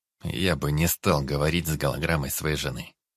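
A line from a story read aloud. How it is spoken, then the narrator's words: Gloomy reply. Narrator (Russian): мрачно ответил Дид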